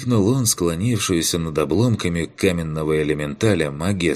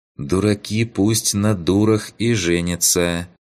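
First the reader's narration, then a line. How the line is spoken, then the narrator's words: Calm reply. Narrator (Russian): спокойно ответила та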